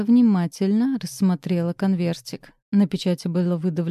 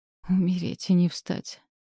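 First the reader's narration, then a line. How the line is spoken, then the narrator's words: Barely audible. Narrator (Russian): едва слышно сказала Леда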